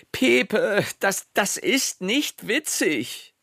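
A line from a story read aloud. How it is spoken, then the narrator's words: Mother nearly screaming. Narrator (German): Pepes Mutter schrie jetzt schon fast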